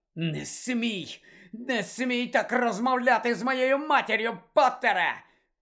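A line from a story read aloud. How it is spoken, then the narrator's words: Growled. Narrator (Ukrainian): прогарчав Мелфой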